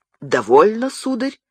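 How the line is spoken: Agitated exclamation. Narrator (Russian): взволнованно воскликнул король

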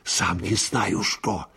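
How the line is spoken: Whispered reply. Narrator (Russian): тоже шепотом ответил Анискин

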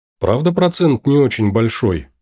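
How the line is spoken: Uncertain question. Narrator (Russian): неуверенно спросила

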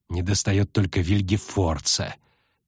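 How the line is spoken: Quiet, spiteful hiss. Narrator (Russian): тихо, но с явной злобой прошипела Сабрина Глевисик

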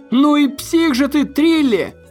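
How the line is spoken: Shouting from above. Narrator (Russian): закричал с чердака Магнус

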